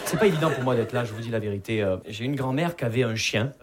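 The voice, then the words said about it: Southern French Perpignan accent. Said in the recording (French): “Vous l'entendez à mon accent, je viens pas de Paris. Je viens de Perpignan.”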